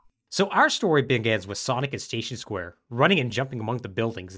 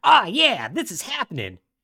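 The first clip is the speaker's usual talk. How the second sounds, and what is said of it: Imitates a cartoon character's voice. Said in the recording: “my Sonic impression.”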